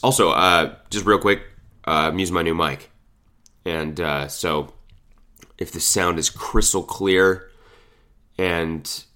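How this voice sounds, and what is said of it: Sick-sounding voice. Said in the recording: “I don't know if you can tell by the sound of my voice, but I'm very sick right now. Extremely sick.”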